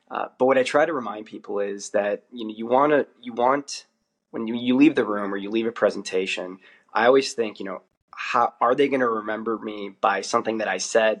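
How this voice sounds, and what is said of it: American accent. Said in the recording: “the accent sticks out when you're not Australian and they know you're American”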